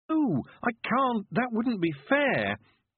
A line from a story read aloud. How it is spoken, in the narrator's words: Tiffany protested desperately